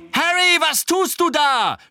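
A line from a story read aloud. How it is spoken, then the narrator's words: Shouted. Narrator (German): schrie Angelina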